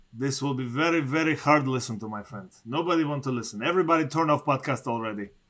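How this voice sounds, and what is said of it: Strong foreign accent in English. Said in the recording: “We are both due accent, not only me. ... For the entire show, completely.”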